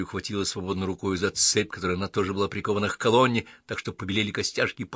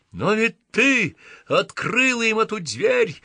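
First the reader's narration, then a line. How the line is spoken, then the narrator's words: Screaming. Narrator (Russian): завопил ангел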